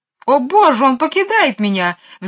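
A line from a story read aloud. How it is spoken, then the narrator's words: Shrieked. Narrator (Russian): взвизгнула мисс Ларк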